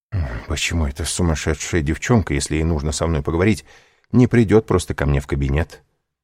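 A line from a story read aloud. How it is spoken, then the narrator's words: Muttering. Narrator (Russian): бормотал Данглар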